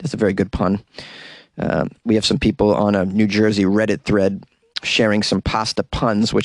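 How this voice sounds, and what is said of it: Usual voice. Nothing is said of it.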